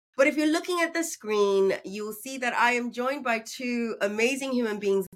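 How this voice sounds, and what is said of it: Sick, congested voice. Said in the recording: “I sound like a knob. I sound horrible, but I'm recovering from a cold”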